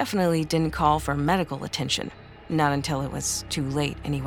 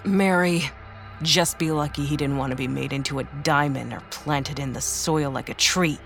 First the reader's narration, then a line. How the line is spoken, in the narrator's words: she snapped